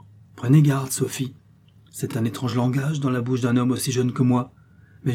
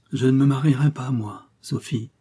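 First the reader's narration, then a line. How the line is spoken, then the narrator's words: Suddenly broken voice. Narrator (French): continua-t-il d'une voix soudain brisée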